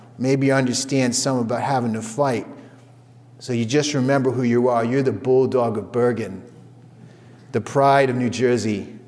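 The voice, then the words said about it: Put-on New York accent. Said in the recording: “in her like New York accent”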